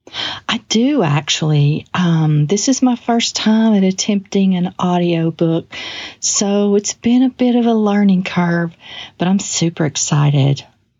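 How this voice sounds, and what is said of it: Heavy Southern US accent. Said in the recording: “heavy southern accent”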